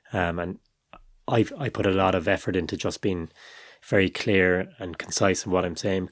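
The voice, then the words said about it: Strong Irish Cork accent. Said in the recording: “I've got quite a strong accent, a Cork accent.”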